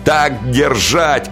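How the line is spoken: Shout. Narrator (Russian): кричал я

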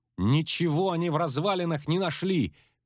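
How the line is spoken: Frightened shout. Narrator (Russian): крикнула она, чувствуя, как тоже бледнеет

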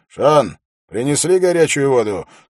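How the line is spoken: Shouting through a curtain. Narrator (Russian): крикнул Холт через занавеску

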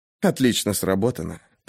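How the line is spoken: Whisper in her ear. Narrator (Russian): прошептал он ей на ухо

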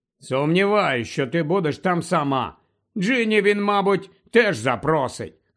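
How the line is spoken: Disappointed grumble. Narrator (Ukrainian): буркнув Рон, розчарований тим, що Слизоріг його проігнорував

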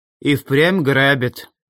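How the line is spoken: Gloomy voice from afar. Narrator (Russian): мрачно донеслось от двери во внутренние помещения

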